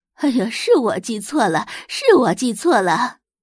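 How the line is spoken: Laughing. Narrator (Chinese): 方太太笑着道

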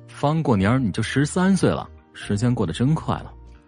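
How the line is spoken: Wistful sigh. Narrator (Chinese): 像是感叹似的说道

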